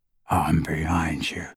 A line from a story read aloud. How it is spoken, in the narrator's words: he whispered into Hermione's ear